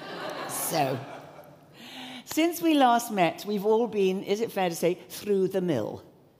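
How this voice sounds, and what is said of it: English accent. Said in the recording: “my funny, strange English accent, which, of course, is modelled on the Queen”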